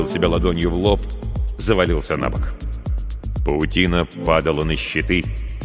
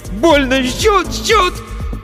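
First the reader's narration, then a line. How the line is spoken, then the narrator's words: Shout. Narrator (Russian): Закричал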